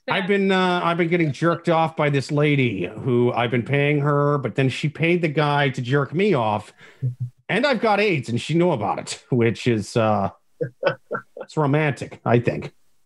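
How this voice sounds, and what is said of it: Poor imitation of another person's voice. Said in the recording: “I tried to do a Charlie Sheen impersonation on the fly... That was a terrible Charlie Sheen... that terrible impersonation”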